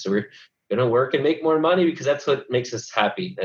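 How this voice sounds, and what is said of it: Sarcastic tone. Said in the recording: “That was sarcasm,”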